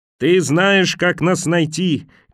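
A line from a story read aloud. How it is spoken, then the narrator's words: Shouting back. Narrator (Russian): крикнула она в ответ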